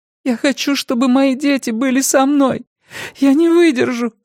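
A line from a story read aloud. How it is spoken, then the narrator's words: Sobbing woman. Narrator (Russian): всхлипнула она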